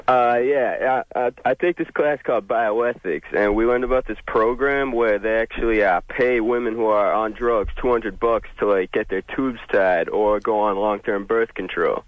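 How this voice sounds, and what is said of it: Mixed Boston and Australian-sounding accent. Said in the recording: “that's one of the craziest dialect slash accents ... Guy who grew up in Boston by way of New Zealand ... There's a little Aussie meets bossy ... Meets Bean”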